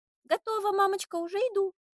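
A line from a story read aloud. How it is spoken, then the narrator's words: Shout from another room. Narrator (Russian): выкрикнула Варя из своей спальни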